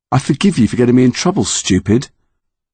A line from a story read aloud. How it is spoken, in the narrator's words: Lily said, but not too harshly